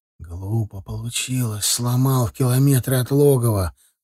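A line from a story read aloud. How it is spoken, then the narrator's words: Answered quietly. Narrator (Russian): ответил тот так же тихо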